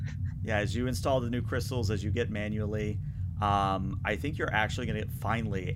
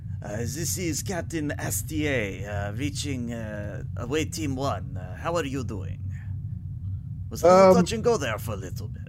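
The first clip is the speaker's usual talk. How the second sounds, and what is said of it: Hilariously bad French accent. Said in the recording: “in her hilariously bad French accent”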